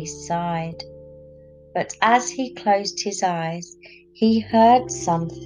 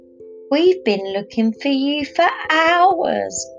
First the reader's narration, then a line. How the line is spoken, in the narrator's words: cried Mum